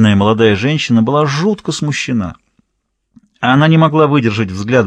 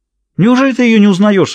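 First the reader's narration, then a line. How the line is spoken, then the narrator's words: Exclaiming. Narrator (Russian): воскликнула Ребекка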